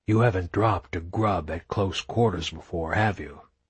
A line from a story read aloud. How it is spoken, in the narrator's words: Phoenix whispered to her